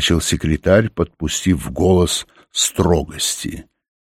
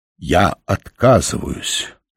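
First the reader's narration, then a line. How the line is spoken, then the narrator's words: Solemn declaration. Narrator (Russian): торжественно заявил Оренгороса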